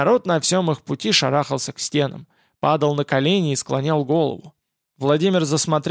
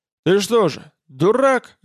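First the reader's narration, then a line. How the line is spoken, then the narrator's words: Barking rider. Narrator (Russian): рявкнул всадник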